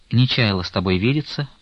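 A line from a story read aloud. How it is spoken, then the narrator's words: Calmer. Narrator (Russian): прибавила она более спокойно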